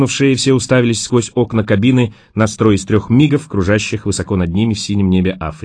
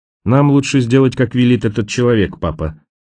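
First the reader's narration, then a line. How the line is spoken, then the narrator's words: Sad. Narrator (Russian): печально промолвил Фред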